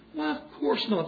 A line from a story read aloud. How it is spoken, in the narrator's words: said General Lee